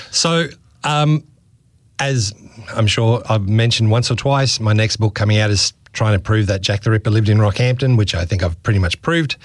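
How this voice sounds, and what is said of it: Deep, worn-out voice. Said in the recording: “it's just starting to get into my voice. So you might hear the deep, sexy voice.”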